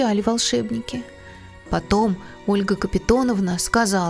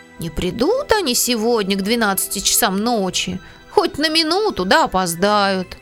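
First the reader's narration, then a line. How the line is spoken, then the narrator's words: Grumble. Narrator (Russian): Пантелей Захарыч проворчал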